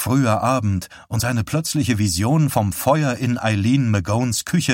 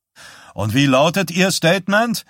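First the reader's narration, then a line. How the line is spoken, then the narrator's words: Reporter calling out. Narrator (German): rief einer der Reporter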